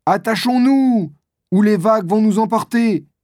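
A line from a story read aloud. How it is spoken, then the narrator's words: Shouted. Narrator (French): crie alors Moko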